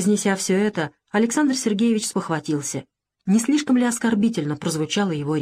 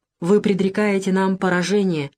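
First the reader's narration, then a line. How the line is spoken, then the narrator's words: Sad sigh. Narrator (Russian): вздохнул он невесело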